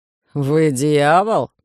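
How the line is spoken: Irritated grimace. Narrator (Russian): раздраженно скривил губы оборотень

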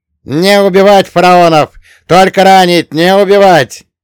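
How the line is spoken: Yelling while shooting. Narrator (Russian): орал Ель, отстреливаясь

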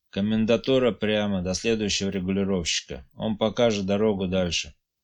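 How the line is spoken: Weary soldier repeating. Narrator (Russian): солдат устало повторял

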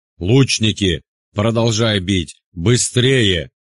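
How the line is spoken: Angry roar. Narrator (Russian): взревел Евпатий Коловрат, когда понял, что часть его отряда словно бы решила отдохнуть

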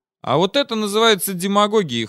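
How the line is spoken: Skeptical snort. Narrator (Russian): хмыкнул

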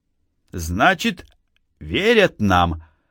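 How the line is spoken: Stern question. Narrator (Russian): строго спросил Владимир Ильич

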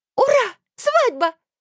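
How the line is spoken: Squealing. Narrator (Russian): взвизгнула Мильта

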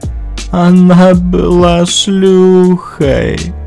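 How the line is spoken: Tearful mumble. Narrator (Russian): промямлил сквозь слезы Светин муж

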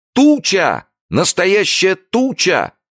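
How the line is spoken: Sudden shout. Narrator (Russian): закричал вдруг Джо

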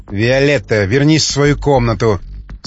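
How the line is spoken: Said sternly. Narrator (Russian): строго сказала она

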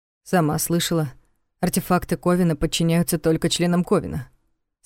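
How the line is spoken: Calm reminder. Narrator (Russian): спокойно напомнил Савин

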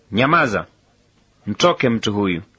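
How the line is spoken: Stern rebuke. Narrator (Swahili): akamkemea huyo pepo akisema

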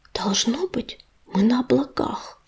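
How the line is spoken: Whisper. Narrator (Russian): прошептал ежевика

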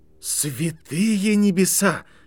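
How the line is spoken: Breathless exclamation. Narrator (Russian): выдохнул человек

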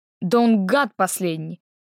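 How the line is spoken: Angry reply. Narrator (Russian): зло отозвалась Дарина

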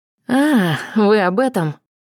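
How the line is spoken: Relieved exhale. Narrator (Russian): опять выдохнула с облегчением я

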